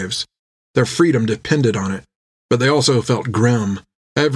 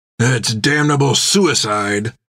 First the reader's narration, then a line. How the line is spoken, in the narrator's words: growled Jack